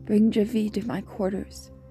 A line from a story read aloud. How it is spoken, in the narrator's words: Alia said